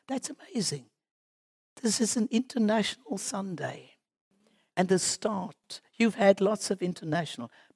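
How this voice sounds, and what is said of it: Foreign, non-local accent. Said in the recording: “I'm speaking here with a different accent”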